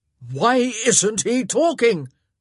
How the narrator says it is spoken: he boomed

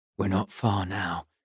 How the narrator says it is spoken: Hugh said quietly

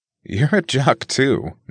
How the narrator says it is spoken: Nick noted with a laugh

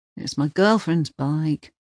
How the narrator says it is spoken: he mumbles at last

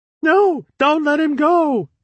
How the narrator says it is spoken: screamed Putzel, hugging the wall like a terrified maniac

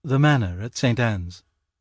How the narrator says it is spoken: Jane heard her own voice very sleepily answering

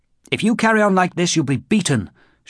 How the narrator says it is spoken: shouted one of the guards, brandishing a big stick

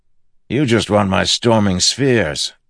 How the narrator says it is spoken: Teft snapped

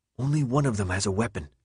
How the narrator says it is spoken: he whispered

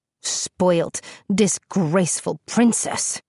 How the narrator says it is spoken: hissed between his teeth

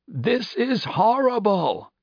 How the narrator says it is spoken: he had to shout to make his voice heard

